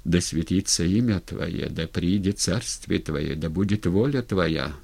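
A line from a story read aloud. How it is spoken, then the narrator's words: Repeated whisper. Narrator (Russian): в который раз зашептал Унковский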